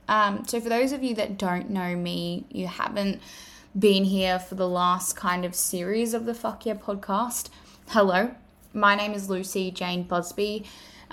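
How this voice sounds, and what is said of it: Australian accent. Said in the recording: “As you can tell from my accent, I am an Australian female.”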